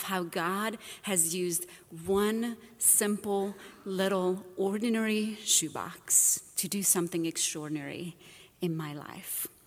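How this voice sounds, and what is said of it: Romanian-accented English. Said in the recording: “this is not a Southern accent ... originally, I am from Romania, and that is where the accent”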